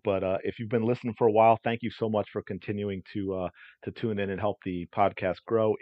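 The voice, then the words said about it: Strained, fading voice. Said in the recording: “I think I'm starting to lose my voice here”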